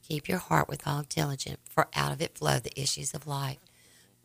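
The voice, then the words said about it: Raspy hoarse voice. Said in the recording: “my voice is raspy”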